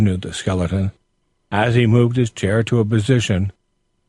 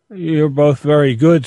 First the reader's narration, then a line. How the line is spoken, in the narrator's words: stammered Toby, so weighted down by a sense of the honor heaped upon him as to be at a loss of words